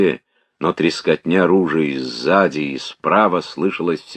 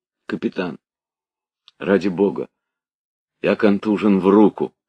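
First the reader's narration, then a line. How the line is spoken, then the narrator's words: Timid. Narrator (Russian): сказал робко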